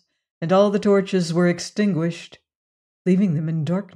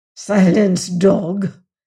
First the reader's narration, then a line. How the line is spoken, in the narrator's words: hissed a priest